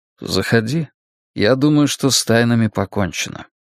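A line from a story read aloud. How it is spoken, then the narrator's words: Calm reply. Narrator (Russian): Стью, который спокойно ответил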